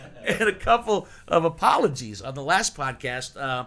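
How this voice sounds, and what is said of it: Usual voice. Nothing is said of it.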